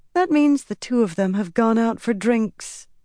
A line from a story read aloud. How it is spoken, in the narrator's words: Elaine said with a sigh